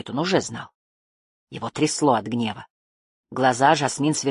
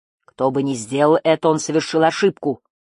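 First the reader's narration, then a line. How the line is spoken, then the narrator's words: Loud public announcement. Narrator (Russian): громко сказала Жасмин, чтобы услышали все, кто хотел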